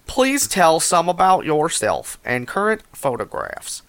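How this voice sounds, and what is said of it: Reading aloud in a put-on accent. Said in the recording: “I've lost the plot of this accent.”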